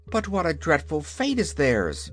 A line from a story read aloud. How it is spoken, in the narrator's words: exclaimed Ozma earnestly